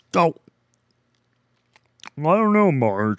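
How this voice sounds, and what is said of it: Homer Simpson cartoon voice impression. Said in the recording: “like a Homer voice ... to do a Homer Simpson voice”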